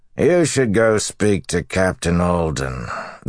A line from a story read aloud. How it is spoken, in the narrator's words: the man said lazily